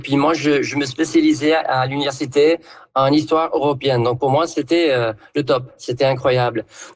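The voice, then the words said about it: Southern French accent. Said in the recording (French): “en prenant l'accent du coin ... j'entendais un accent du Sud”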